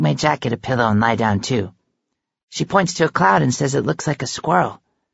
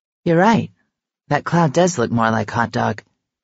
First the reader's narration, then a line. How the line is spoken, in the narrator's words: she says